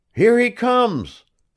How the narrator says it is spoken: cried a group of people

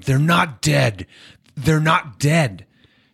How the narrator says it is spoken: Kevin Austin screams at Calvin Newnham

